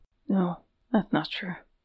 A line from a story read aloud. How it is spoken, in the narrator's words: murmured